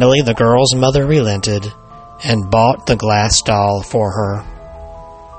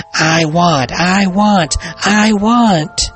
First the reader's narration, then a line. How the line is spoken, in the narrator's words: the girl began stamping her feet and screaming